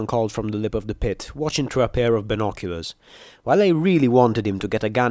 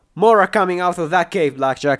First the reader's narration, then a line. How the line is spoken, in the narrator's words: yelled